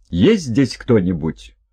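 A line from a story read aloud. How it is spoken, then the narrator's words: Forcedly firm shout. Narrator (Russian): Стараясь придать голосу твердость, Хельга крикнула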